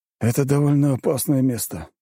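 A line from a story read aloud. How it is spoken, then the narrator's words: Sighing. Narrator (Russian): вздохнул Геннадий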